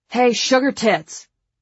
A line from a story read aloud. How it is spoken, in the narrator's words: Frankie yells from behind her